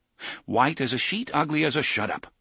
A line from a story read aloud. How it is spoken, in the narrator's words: Roland said curtly